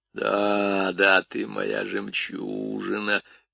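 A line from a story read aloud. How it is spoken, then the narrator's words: Soft, strange rough crooning. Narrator (Russian): тихо напевала она тем же странным грубым голосом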